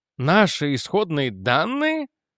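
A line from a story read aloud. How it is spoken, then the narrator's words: Exclaiming. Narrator (Russian): воскликнул я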